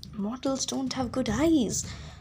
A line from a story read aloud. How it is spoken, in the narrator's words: Anvith whispered and reminded me